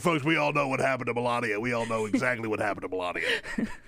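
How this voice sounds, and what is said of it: Imitates another person's voice. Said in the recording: “really good Alex Jones impersonation ... the Alex Jones impression”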